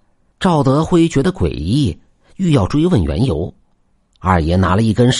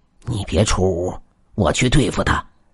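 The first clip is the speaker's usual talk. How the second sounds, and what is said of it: Hushed, quiet voice. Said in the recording (Chinese): “小声对他说道”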